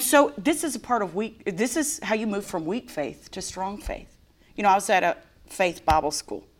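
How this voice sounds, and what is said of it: Usual voice. Nothing is said of it.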